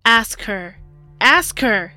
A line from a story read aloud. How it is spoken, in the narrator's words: John bellowed